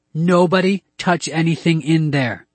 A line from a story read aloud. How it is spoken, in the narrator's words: I yelled